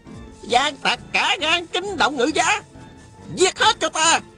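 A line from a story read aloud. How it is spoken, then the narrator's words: Shout. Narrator (Vietnamese): Tào Quá Thuần la lên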